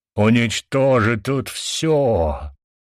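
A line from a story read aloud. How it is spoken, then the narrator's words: Booming voice. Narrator (Russian): прогремел мой голос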